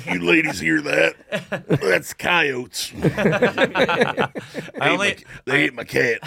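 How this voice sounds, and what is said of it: Gruff tough-guy voice. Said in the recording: “I only put on that voice when I talk about coyotes. ... I'm doing an impression of a tough guy.”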